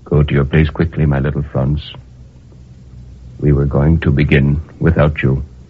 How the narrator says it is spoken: Monsieur Hamel without anger said very gently

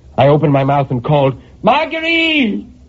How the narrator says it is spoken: I screamed, and my voice inside that box took on such a hollow sound that it frightened me

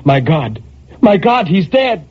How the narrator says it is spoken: a terror took hold of her and she cried

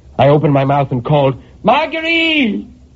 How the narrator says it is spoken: I screamed, and my voice inside that box took on such a hollow sound

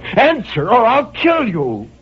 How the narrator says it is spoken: I cried out

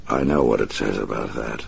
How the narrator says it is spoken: the Batman said softly

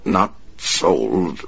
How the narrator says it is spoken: the man stammered

